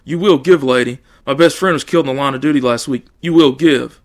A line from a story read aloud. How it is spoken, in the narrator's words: he shouted